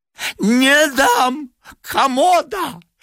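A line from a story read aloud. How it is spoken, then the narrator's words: Shrill old woman. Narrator (Russian): визгливо сказала старуха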